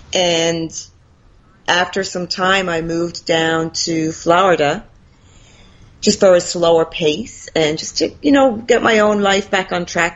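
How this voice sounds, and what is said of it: Faint Irish accent, Americanized. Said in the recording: “that's not a Florida accent, is it? That's an Irish accent. ... That's the remainder of an Irish accent, yeah. I'm very Americanized”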